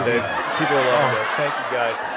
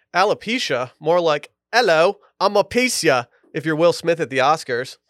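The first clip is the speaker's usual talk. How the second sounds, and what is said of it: Put-on accent, changed voice. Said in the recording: “why the voice change? ... Why the accent?”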